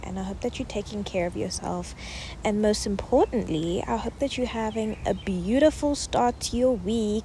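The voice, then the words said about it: Out of breath, breathless speech. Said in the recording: “I'm out of breath. I am out of breath.”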